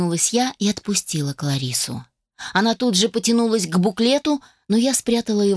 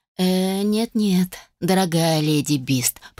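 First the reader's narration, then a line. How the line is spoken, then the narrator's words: Drawling. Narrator (Russian): протянул я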